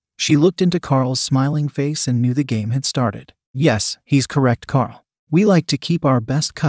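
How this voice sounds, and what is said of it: Usual voice. Nothing is said of it.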